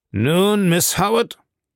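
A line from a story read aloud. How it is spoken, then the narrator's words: Rough-voiced male. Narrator (German): begann er mit rauer Stimme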